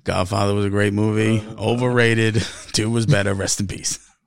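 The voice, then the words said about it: Mike Francesa impression. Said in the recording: “My Francesa impression was off. It's a little off tonight. ... wasn't as dominant an impression.”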